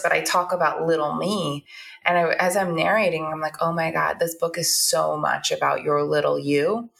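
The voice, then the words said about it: Slightly hoarse voice. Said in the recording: “my voice is not done yet, a little bit hoarse,”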